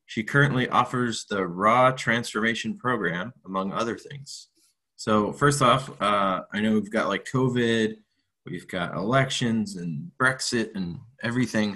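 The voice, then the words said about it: American accent. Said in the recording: “the raw transmit the with the American accent”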